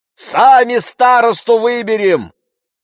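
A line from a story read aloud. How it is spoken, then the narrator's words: Shout from a crowd. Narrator (Russian): крикнули из толпы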